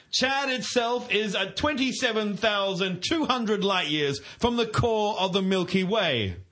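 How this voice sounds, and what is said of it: Mock British newsreader voice. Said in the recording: “my Chad Watch voice ... it's my newsreader voice from somewhere in the United Kingdom ... I'm doing a voice”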